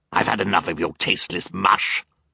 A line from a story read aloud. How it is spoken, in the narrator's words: Olaf snarled